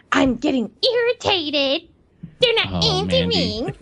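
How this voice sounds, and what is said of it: Exaggerated girly impression voice. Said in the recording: “Is that an impression of me? ... you just did like an even girlier girl voice. ... that sounded like Cartman.”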